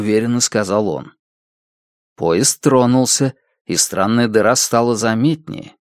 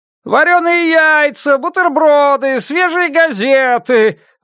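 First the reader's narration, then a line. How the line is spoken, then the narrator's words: Shouting proprietor. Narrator (Russian): выкрикнул хозяин заведения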